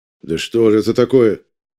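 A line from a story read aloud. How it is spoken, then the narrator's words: Angry grumble. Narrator (Russian): Сердито ворчит председатель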